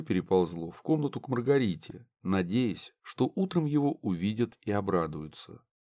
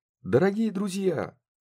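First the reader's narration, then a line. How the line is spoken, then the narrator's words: Ringing exclamation. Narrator (Russian): звонко воскликнула она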